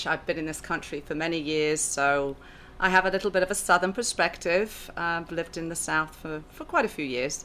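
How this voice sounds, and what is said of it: British accent. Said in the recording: “a British accent ... You are the British accent.”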